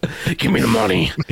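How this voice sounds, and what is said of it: Batman character voice. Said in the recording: “that was a Batman impression,”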